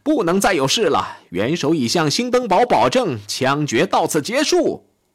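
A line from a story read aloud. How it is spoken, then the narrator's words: Shouting. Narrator (Chinese): 他喊道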